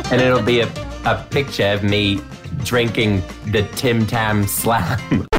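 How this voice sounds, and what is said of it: Badly done put-on accent. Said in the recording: “this accent's terrible”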